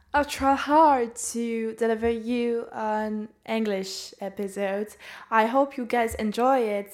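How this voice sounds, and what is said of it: Non-native English accent. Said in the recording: “I hope you understand me because of my accent, of my pronunciation”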